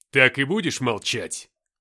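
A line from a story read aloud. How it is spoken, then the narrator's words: Barking shout. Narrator (Russian): рявкнул Люцифер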